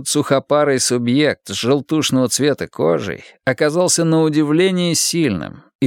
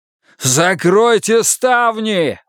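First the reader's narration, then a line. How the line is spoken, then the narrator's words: Desperate shout. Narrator (Russian): в отчаянии закричал Волк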